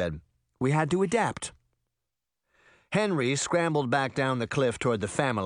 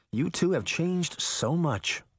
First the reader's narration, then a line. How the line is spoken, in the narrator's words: Veronica sighed